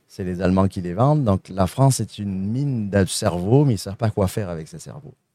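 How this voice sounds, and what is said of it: Saguenay Quebec French accent. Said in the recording (French): “Vous entendez mon petit accent du Saguenay”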